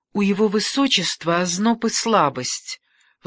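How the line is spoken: Excited chattering in French. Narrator (Russian): взволнованно Каталина, щебеча по-французски

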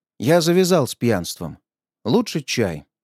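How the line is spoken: Plain answer. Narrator (Russian): ответил я

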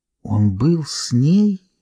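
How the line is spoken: Whispered. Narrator (Russian): прошептала Линда

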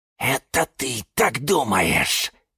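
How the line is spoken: Hissing. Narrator (Russian): зашипел на него кактус Кирилл

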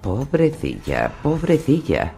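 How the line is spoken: Sighed. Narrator (Spanish): suspiró Varys

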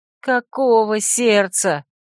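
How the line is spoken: Exasperated moan. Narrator (Russian): простонала я, поражаясь его непробиваемости

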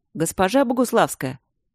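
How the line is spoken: Pleasant call. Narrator (Russian): окрикнул приятным голосом

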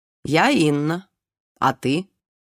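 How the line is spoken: Drunken woman's voice. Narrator (Russian): Высокая худая женщина, похожая на породистую лошадь, сказала пьяно

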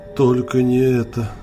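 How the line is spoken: Breathed out in horror. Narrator (Russian): С ужасом выдохнул он

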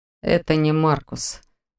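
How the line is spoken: Gloomy objection. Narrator (Russian): мрачно возразил Берт

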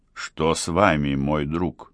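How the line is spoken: Warm heartfelt question. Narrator (Russian): спросил граф тем задушевным тоном, какой он иногда употреблял в разговоре

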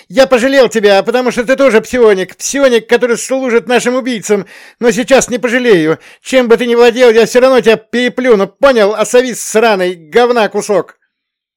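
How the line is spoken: Angry shout. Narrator (Russian): Со злостью крикнул

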